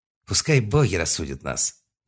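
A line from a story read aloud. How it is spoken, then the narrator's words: Quiet man. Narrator (Russian): негромко сказал мужчина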